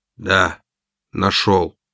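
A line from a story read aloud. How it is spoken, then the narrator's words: Hoarse. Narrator (Russian): хрипло ответил я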